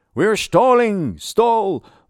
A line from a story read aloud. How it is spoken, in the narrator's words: Asker shouted